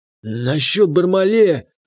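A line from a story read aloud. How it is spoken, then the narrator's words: Husky voice. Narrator (Russian): прозвучал хрипловатый голос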